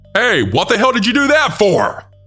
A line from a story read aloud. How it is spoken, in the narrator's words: he then yelled at me